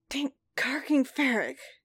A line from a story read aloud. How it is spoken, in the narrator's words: hissed, once he could speak without screaming